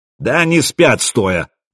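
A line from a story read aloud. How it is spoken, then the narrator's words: Loud bark in Scandinavian. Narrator (Russian): гаркнул по-скандинавски Стюрмир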